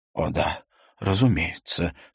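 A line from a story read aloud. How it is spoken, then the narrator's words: Embarrassed, forced out. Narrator (Russian): смущенно выдавил из себя Хельге Клеменсен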